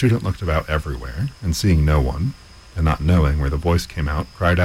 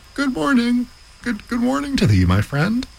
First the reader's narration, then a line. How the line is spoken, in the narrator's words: he cried out